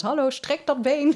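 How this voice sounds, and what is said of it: Slight put-on German accent. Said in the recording (Dutch): “die heeft ook een beetje een Duits accent”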